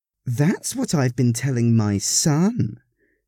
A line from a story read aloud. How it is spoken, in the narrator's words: said triumphantly